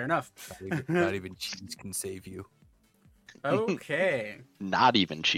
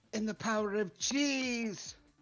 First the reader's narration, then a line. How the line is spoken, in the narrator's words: you hear her scream out